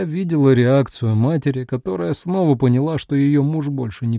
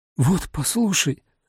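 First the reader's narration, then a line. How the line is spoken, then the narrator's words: Pleading. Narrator (Russian): взмолилась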